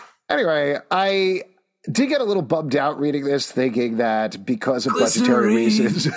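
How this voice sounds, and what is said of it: Usual voice. Nothing is said of it.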